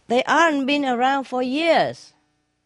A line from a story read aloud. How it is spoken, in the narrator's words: the man screamed back